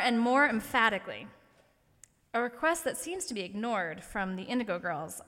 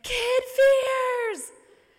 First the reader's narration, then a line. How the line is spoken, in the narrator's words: Her voice getting hoarse, almost sounding desperate